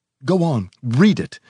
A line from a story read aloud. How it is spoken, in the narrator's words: he cried excitedly